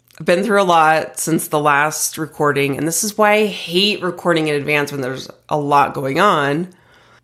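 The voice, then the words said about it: Sick, recovering voice. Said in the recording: “you can probably tell from my voice that I'm getting over something. I did have COVID”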